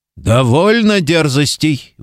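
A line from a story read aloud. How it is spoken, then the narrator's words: Impatient roar. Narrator (Russian): взревел нетерпеливый хуртианц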